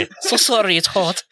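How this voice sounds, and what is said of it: Put-on Asian accent. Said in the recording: “I can say it with an Asian accent.”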